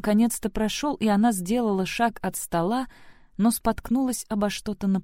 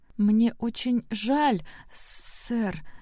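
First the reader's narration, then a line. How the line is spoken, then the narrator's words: Stammering. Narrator (Russian): сказала она, заикаясь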